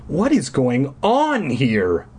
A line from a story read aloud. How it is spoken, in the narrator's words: I cried